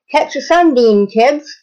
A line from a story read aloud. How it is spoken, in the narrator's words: she said, cheerfully